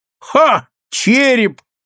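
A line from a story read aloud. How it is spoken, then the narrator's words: Laughing exclamation. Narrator (Russian): смеясь, воскликнул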